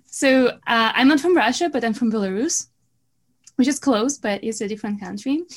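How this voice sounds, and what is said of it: Russian-sounding accent. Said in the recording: “my accent can sound like this, you know, this Russian accent.”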